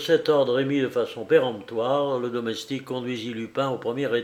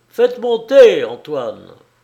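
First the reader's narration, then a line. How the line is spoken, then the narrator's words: Shout from above. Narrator (French): Une voix cria d'en haut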